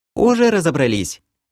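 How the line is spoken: Cheerful young woman. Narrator (Russian): Весело сказала девушка

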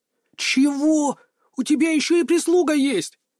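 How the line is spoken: Howling. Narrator (Russian): аж взвыл он

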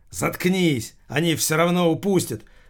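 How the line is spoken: Yelled outburst. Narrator (Russian): выкрикнул Холмогоров

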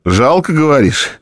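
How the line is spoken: After laughing. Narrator (Russian): Отсмеявшись, произнес Лысый

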